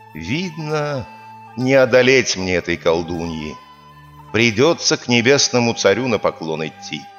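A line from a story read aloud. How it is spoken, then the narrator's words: Heavy sigh, king speaking. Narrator (Russian): Вздохнул царь тяжело и говорит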